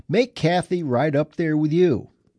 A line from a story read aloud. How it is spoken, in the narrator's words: yell